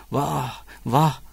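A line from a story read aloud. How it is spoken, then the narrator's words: Moaning, cursing. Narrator (Turkish): diye inledi ve hırsızlara beddua okudu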